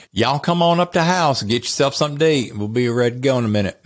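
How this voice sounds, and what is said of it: North Carolina Southern accent. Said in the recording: “Now, that's my upbringing, which is North Carolina.”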